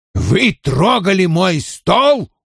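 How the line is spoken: Roaring. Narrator (Russian): взревел Вульф

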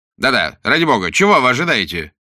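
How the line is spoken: Irritated. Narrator (Russian): раздраженно повторил вслед за ним Уиллогби

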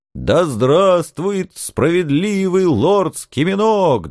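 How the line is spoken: Gloating crowd roaring in unison. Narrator (Russian): дружно взревели бывшие узники, злорадно потирая ручки

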